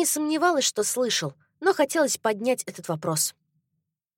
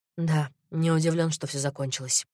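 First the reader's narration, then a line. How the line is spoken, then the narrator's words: Said softly. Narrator (Russian): мягко сказал Кристиан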